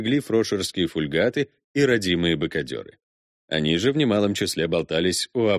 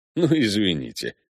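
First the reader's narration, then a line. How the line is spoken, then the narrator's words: Chuckling. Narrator (Russian): хохотнул Виконт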